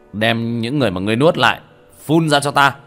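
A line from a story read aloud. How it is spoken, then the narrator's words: Cold snort, shouting. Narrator (Vietnamese): Tiểu Thất hừ lạnh một tiếng, quát lên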